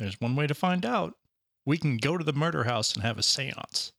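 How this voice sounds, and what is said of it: Usual voice. Nothing is said of it.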